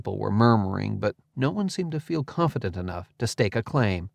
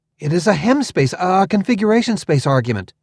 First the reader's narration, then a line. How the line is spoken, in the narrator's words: I blurted, before I'd even thought about it